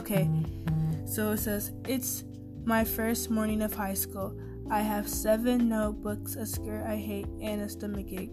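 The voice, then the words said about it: Tired, low, mumbling voice. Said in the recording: “Sorry for me mumbling. So tired. ... My voice is kind of low, you guys. I'm trying to energize it a little bit.”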